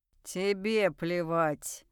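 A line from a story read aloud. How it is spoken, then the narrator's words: Low rumbling growl. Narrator (Russian): Неожиданно низким ракочущим голосом рычит Марх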